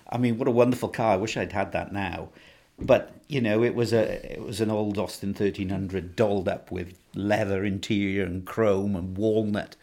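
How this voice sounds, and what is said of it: Welsh accent. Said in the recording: “your Welsh accent ... do I sound that Welsh?”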